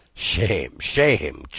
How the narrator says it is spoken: chuckled the old man

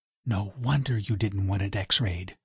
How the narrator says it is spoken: she whispered

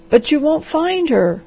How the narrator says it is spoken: gasped the doctor

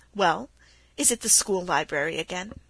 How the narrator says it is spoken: he said with a chuckle

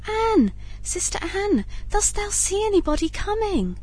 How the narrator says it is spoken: said his wife, cried out softly

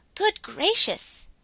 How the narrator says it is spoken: exclaimed Glossie

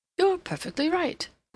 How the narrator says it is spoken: Rodney exclaimed

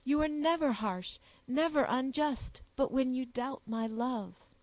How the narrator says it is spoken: cried the soldier with warmth

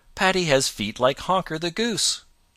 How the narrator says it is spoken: he exclaimed

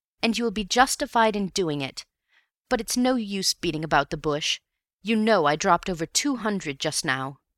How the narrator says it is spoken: cried bitterly

